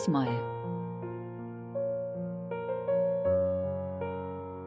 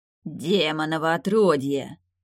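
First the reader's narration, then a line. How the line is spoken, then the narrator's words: Hoarse wheeze. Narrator (Russian): прохрипел Веденей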